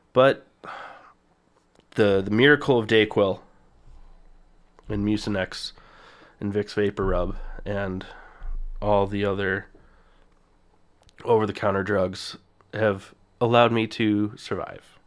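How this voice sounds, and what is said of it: Rough, sick-sounding voice. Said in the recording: “developed a fever, really bad cough... this is the best that my voice has sounded since Friday. It's it's been rough. It's not great”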